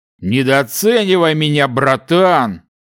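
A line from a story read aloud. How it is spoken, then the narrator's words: Smirking. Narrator (Russian): хмыкнул его давний друг Дилан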